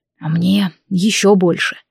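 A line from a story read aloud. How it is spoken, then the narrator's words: Quiet reply. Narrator (Russian): негромко отозвался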